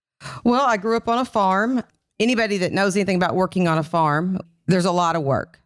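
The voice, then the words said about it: Kentucky accent. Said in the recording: “growing up in Kentucky. You obviously have an accent.”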